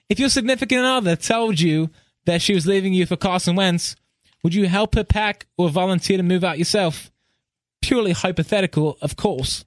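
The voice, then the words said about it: Put-on British accent. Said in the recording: “So I'm going to read this in a British accent.”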